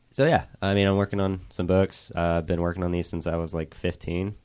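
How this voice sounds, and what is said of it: Deep, slightly off-kilter voice. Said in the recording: “And you have a deep voice. ... I'm getting over being sick. ... It's a little off kilter.”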